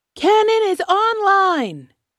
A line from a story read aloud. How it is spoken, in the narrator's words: Opkik shouts